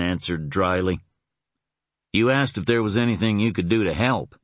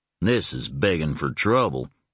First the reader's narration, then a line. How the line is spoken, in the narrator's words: Lambert grumbled